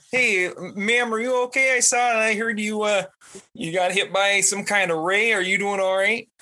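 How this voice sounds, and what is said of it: Put-on Canadian accent. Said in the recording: “give me an accent ... Canadian.”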